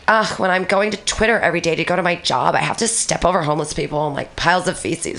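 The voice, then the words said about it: Mocking entitled 'Becky' voice. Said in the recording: “I did a Becky voice”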